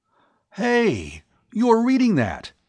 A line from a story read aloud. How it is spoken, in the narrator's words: he cried